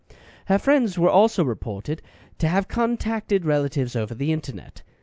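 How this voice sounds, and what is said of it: Put-on English accent. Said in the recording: “I could talk about this in an English accent.”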